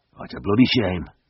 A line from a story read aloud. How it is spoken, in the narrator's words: grunted Stan